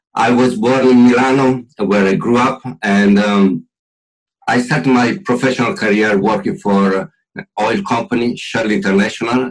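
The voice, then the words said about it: Italian accent. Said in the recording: “as you can tell from my accent... clearly Italian”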